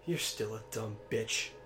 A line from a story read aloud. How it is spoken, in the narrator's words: Cassandra snarled